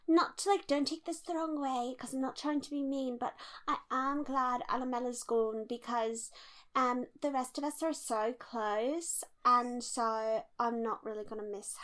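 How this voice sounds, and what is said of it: Muddled put-on British accent. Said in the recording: “I don't know what my accent was doing ... I think you were kind of doing Carey Mulligan doing an American accent doing a British accent.”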